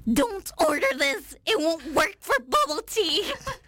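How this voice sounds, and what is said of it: Funny imitated voice. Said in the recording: “funny voice? ... I recognize the voice. ... I was a huge fan of Miranda Sings.”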